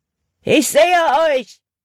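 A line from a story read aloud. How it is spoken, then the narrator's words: Calling out. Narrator (German): rief Hutton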